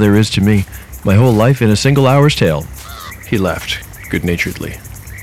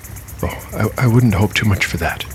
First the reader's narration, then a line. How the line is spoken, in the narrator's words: Umora whispered back